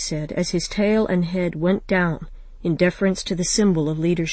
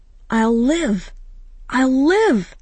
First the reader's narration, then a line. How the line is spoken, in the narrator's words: Miax cried jubilantly